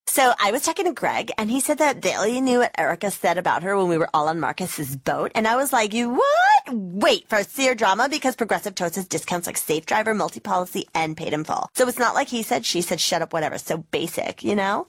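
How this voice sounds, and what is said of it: Imitates a reality TV star. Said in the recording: “my impression of a reality TV star”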